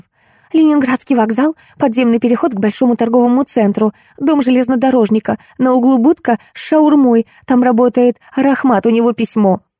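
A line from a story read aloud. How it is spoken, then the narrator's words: Squeaky device reporting. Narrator (Russian): сообщила пищалка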